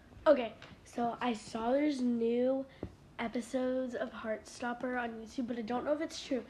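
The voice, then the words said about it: Scratchy, sore-throat voice. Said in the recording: “my throat has been really scratchy. I've been a little bit sick ... it's just a little sore throat ... That's why my voice sounds different.”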